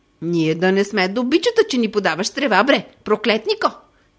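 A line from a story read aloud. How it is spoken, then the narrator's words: Angry shout. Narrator (Bulgarian): Викнала гневно тя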